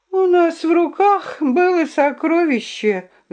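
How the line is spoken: Sighing. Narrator (Russian): вздохнула Друмля

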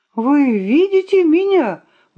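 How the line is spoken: Exclaiming. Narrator (Russian): воскликнул капрал Пыпец

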